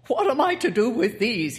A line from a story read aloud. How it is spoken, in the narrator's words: he cried